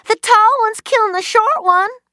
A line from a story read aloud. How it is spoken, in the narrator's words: fetched up a breath and howled out